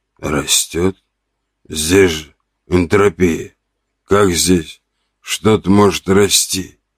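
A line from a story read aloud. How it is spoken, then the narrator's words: Rasping wheeze. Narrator (Russian): прохрипел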